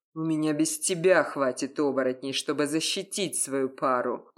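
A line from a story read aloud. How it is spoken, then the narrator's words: Menacing growl. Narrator (Russian): угрожающе прорычал я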